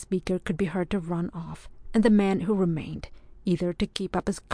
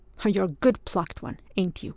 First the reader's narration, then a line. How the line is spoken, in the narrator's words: observed the first voice scornfully